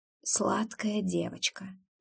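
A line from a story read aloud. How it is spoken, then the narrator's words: Whisper. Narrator (Russian): шепнул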